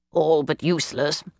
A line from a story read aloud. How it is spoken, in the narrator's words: he grumbled